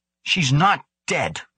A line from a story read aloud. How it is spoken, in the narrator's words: Ukara snapped